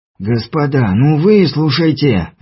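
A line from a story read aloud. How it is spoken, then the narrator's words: Pleading. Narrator (Russian): взмолился Чернявский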